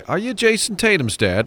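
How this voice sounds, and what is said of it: Bad put-on Australian accent. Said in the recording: “that was a terrible Australian accent”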